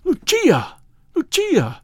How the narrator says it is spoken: I cried

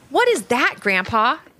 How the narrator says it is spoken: asked Ivy

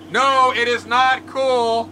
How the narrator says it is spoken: At the man of the Coast Guard cutter, he shouts back

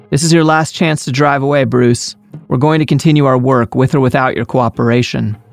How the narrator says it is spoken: She turned and shouted

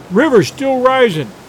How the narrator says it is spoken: he cried

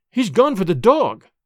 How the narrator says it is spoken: cried Miss Hunter

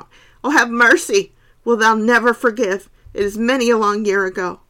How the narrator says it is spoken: Miss Furnival kept shrieking out

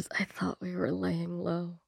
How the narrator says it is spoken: Viv just, like, whispers

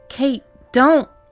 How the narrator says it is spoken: Rachel cried

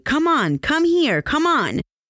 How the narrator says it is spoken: Dykes yelled at the terrified little boy

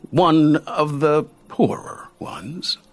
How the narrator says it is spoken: Timon said

